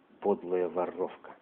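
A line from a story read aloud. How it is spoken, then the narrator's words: Spoken through teeth. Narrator (Russian): Андрюха проговорил сквозь зубы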